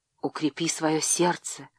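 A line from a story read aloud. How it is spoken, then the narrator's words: Whispered. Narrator (Russian): шепнула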